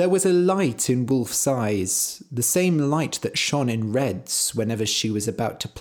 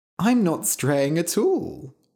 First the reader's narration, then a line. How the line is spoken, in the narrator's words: she said playfully